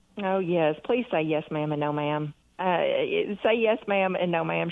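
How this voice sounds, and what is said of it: Southern American accent. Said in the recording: “you got that fabulous Southern accent”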